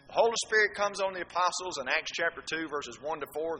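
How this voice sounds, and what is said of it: Speaks with a regional accent. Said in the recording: “I'm speaking with a dialect, aren't I? ... Well, an accent. ... that's my dialect. That's my accent.”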